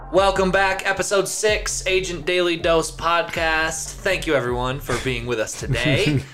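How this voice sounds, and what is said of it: Put-on radio announcer voice. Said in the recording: “Trying out my radio voice.”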